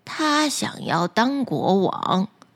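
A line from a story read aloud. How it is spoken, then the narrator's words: Sighing reply. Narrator (Chinese): 渔夫叹了一口气，回答说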